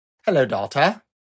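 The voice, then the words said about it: Terrible fake British accent. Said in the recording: “I have a terrible fake British accent ... You do have a horrible British accent.”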